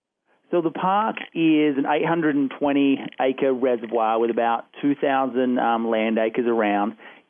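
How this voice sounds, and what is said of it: Australian accent. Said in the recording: “I got a feeling listening to you that you're not from Colorado ... I'm from Australia originally ... I thought that accent was maybe like Minnesota. No, I'm just kidding.”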